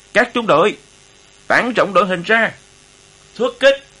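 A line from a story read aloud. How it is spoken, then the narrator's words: Loud commanding shout. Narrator (Vietnamese): Đại đội trưởng Hiền Lương hét lớn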